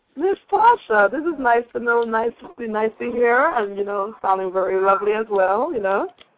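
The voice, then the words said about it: British English accent. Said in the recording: “Battle of the Accents ... I'm from Great Britain, England”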